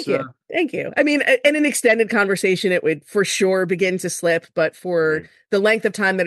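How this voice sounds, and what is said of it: Usual voice. Nothing is said of it.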